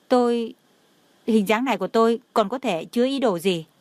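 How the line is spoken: Choked, tearful question. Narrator (Vietnamese): Trong lòng của Đường Khả Hinh đau xót, hai mắt rưng rưng, nghẹn ngào hỏi

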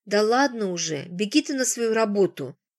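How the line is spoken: Grumbling. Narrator (Russian): заворчала Мария Никитична

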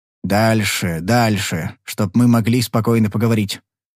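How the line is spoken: Grumbling in ear. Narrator (Russian): проворчал он мне в ухо

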